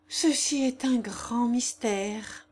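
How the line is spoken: Sighing. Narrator (French): dit Consuelo en soupirant

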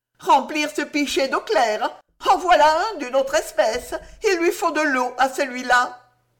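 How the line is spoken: Shouted. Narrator (French): Gédéon cria

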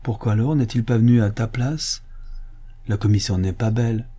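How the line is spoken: Softened tone. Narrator (French): Elle dit d'un ton radouci

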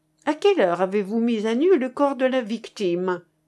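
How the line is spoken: Laughing. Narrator (French): reprit De Sec en riant

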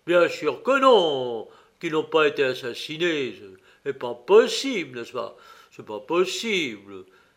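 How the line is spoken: Exclaimed. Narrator (French): s'exclama M

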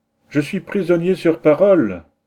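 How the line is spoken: Shouted amid waves. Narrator (French): s'écrie-t-il au milieu des flots

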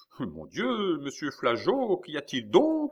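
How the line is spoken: Startling exclamation. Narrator (French): s'écria la comtesse, dont la voix fit retourner le procureur

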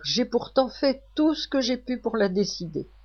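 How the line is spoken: Old man exclaiming. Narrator (French): s'écrie mon grand-père

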